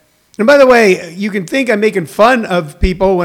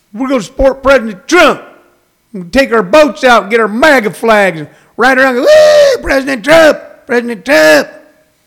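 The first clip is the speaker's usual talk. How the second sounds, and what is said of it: Mimicked Texan Trump supporter accent. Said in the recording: “when I do that accent ... all I'm doing is their accent and their intonation”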